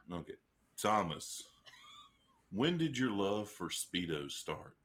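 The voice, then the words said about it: Deep radio announcer voice. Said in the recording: “Would y'all like it in my deep radio voice?”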